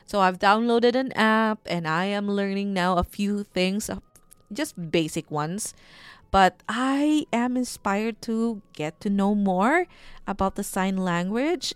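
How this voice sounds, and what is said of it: Strong Bisaya-Bicolano Filipino accent. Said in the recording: “my very matigas na accent ... medyo matigas po talaga yung accent ko kasi medyo Bisakol ako eh. So Bisaya, Bicolano”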